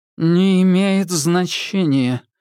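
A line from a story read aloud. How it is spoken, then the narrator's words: Lifeless voice. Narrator (Russian): мертвым голосом сказала она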